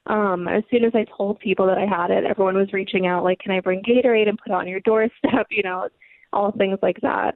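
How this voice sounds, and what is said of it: Strained, unusual-sounding voice. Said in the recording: “Sorry, my voice is crazy.”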